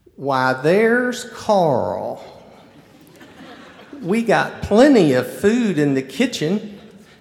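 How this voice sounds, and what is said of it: Rich North Carolina accent. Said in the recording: “with her rich North Carolina accent”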